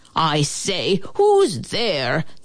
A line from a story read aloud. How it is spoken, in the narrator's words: the man bellowed out